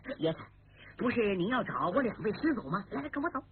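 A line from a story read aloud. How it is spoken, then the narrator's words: Hurried, smiling. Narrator (Chinese): 次子刘胜见李明出手豪爽，气派特大，忙笑着说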